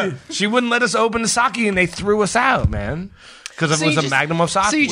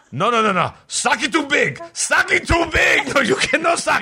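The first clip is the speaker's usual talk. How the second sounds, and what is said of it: Put-on stereotyped foreign accent. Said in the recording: “I have to do the accent now, and it's going to seem totally racist”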